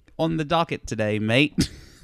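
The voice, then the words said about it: Poor put-on Australian accent. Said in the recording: “That's a terrible Australian.”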